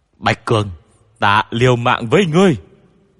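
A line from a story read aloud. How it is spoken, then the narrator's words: Angry roar. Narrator (Vietnamese): tiếng gầm giận dữ của Bách Vô Cầu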